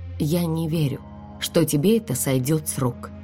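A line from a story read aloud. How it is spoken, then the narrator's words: Quiet. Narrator (Russian): тихо произнесла я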